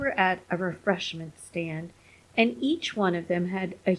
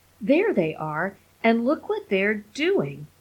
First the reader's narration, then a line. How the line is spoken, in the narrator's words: His wife said sharply